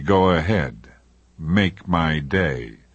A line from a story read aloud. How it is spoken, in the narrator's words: I was supposed to sneer at him and say